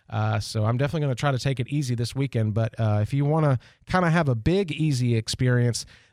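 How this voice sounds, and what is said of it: Congested, slightly under-the-weather voice. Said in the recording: “I've been struggling with sinuses all week and just feeling a little under the weather. You can probably hear it in my voice.”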